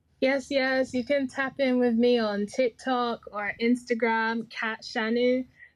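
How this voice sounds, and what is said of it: Noticeable accent. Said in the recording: “it's the accent for me”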